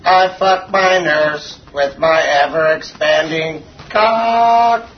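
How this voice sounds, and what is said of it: Robotic synthesized-sounding voice. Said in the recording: “I speak in a robot voice ... Stephen Hawking”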